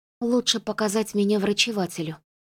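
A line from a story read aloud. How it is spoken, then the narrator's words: Mumbling. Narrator (Russian): Флори пробормотала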